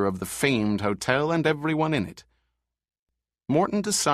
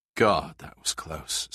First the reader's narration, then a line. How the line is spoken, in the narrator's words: said Barnum quietly